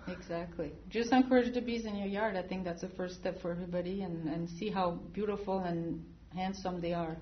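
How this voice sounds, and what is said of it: French accent in English. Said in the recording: “Is your accent from Minnesota? ... I came from France ... this accent will always be with me”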